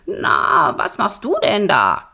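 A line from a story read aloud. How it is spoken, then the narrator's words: Croaked. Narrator (German): krächzte Borax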